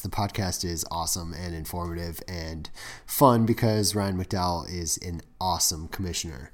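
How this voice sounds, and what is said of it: Sick, rough-sounding voice. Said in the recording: “I am sick, if you can't tell by my voice. ... I didn't realize how terrible it was. My voice”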